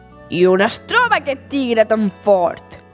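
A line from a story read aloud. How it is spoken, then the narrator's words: Curt angry growl. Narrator (Catalan): grunyia sec de còlera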